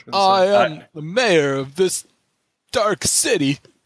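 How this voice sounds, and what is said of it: Imitates another person's voice. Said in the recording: “Christopher Walken impression. ... Actually, that's not bad. ... That's pretty good.”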